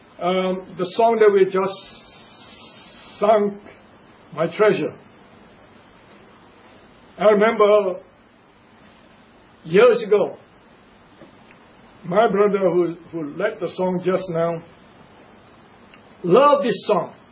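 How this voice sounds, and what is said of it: Asian-accented English. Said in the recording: “different accents are kind of difficult for many people to understand ... my accent ... Africa is very much close to Asia than America, so our accent should be more or less not much of a difference”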